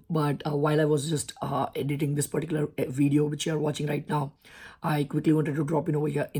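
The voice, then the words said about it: Hoarse, strained, nearly lost voice. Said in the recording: “Sorry about my bad voice ... my voice is gone”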